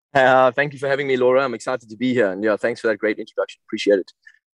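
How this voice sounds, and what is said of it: British West London accent. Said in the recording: “just outside of London, West London ... You have such a beautiful accent. ... I'm sure all the ladies fancy that accent.”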